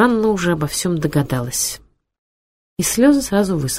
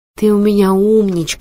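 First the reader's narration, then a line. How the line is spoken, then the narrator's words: Plain. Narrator (Russian): сказала она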